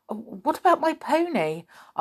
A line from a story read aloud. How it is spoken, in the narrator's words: asked Joe anxiously